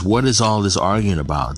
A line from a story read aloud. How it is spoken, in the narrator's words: Jesus asked